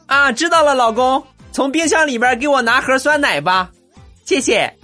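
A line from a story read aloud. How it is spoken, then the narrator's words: Shouted from another room. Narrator (Chinese): 我媳妇从里边喊了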